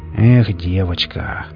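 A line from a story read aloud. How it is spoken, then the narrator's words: Said quietly. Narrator (Russian): негромко произнес сионист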